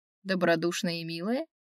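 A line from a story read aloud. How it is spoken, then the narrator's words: Skeptical snort, werewolf. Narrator (Russian): скептически хмыкнул оборотень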